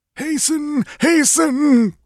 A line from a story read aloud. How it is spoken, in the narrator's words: groaned Tecotl